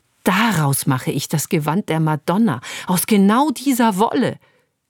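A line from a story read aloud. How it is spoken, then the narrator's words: Sudden enthusiastic exclamation. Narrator (German): rief sie plötzlich begeistert aus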